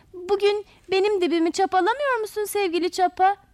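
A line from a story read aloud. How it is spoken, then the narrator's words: Group shouting. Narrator (Turkish): diye bağırışarak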